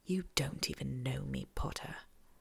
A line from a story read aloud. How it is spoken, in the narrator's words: Malfoy says under his breath